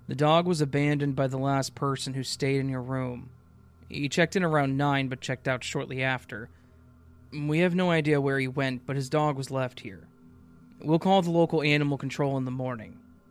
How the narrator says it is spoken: The desk clerk just replied in a monotone voice

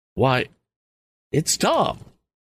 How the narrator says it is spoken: exclaimed Mrs

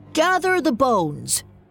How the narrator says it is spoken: the King Pixie called out

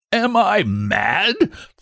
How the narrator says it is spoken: thundered Mr

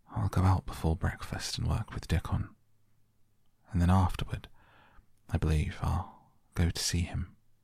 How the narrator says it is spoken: murmured to herself

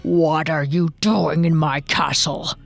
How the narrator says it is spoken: growled the ogre

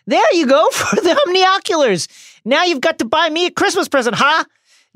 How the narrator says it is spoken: Ron yells

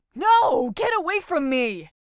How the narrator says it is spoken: yelled the frightened boy

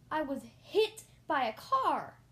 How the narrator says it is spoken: I shouted

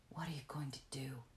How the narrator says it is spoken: she whispered

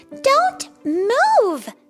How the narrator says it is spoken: cried

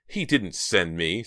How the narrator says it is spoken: Stephanie shouted

